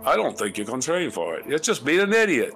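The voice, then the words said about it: Mild put-on British accent. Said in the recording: “I should say that in a British accent... That's a mild British accent.”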